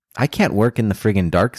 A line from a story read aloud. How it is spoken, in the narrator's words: says Murphy